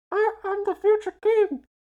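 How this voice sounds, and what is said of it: Muffled character voice. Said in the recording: “My impression of the Dragon Prince ... Because he's in an egg ... he did indeed put his hands over his face to make the impression of being in an egg”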